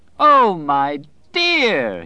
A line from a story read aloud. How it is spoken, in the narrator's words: cried, and went off into another gale of laughter